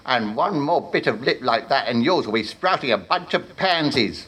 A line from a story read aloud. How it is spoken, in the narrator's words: snapped the bulk Warlock